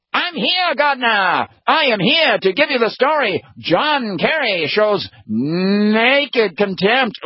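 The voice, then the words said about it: Old-time 1930s newsreel announcer voice. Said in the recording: “do a really good impression of him ... newsreel footage guy, coming in from the 1930s and 40s”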